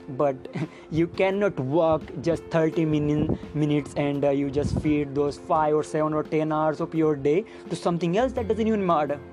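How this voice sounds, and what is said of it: Non-native English accent. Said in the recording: “I'm not good with my English ... this fucking shitty accent”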